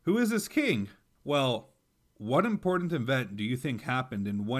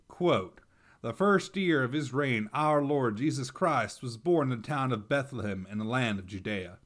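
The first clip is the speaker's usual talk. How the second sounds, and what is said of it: Put-on Texan accent. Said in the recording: “Activating my Texan accent.”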